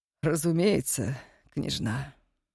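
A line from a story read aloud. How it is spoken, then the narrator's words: Sigh. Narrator (Russian): вздохнул Инзовский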